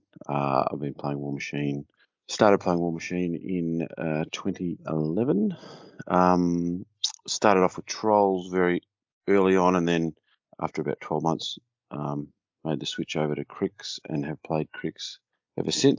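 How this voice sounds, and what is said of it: Australian accent. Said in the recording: “From my accent, I am an Australian.”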